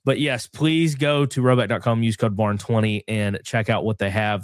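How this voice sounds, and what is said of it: Stuffy, congested nasal voice. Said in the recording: “As you can tell in my voice, I'm very stopped up, if you will. Sinus infection is driving me nuts.”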